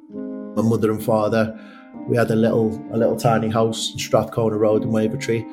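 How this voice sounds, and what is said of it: Liverpool accent. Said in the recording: “I'm from Liverpool, as you can probably tell by my accent”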